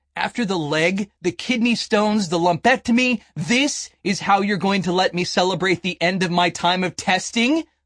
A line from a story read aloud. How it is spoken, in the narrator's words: I yelled at God